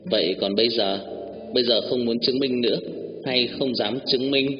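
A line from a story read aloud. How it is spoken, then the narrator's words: Plain. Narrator (Vietnamese): anh hỏi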